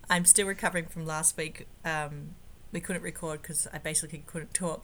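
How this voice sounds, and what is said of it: Hoarse, husky voice. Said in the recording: “As you can tell by my sexy voice... Those dulcet tones.”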